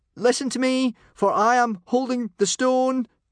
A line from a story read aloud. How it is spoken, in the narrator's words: Hiccup called out